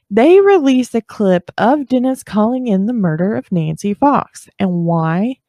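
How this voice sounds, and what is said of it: Southern US accent. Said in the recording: “I'm from the South. like you don't already know, because I'm sure my accent is coming out”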